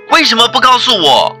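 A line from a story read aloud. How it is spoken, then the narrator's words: Child calling out. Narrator (Chinese): 孩子又喊了一声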